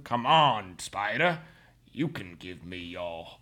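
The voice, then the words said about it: Imitated movie character, somewhat Creole-sounding. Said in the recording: “Is this a good Quaritch impression?... you're doing a little too Creole”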